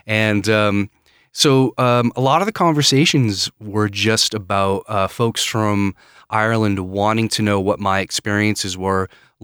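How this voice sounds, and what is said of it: American Maine accent. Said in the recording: “Where's the accent from? ... I'm from Maine.”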